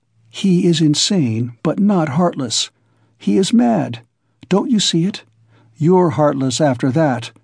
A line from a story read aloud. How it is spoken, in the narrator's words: Razumihin whispered in her ear